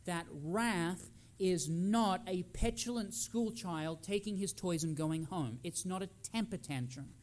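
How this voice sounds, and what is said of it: Australian accent. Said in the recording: “I come from another country ... I sound so naturalized with my accent ... sounded exactly like my mother from Australia ... Australians have the weirdest accents”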